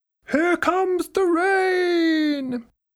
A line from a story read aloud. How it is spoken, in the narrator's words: Incy shout